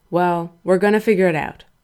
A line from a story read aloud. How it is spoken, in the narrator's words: Frank said firmly